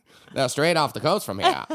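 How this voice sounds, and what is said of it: Put-on Down East Maine accent. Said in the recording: “It's a perfect Down East Maine accent.”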